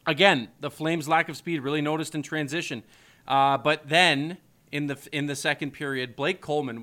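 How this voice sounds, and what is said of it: Sick, congested, rough-throated voice. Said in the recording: “my throat's getting... I'm still getting over this cold. I'm still getting over this sickness. You could probably still hear it in my voice, and it's really messing with my throat here”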